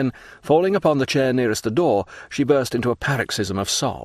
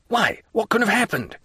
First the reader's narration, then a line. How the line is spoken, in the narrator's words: he exclaimed